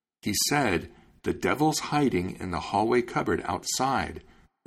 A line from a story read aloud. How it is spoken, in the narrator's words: replied Little Farmer